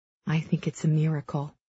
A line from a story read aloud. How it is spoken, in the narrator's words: she murmurs, forcing a smile for my sake